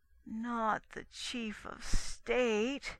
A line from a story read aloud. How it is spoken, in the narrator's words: someone in the terrestrial mission groaned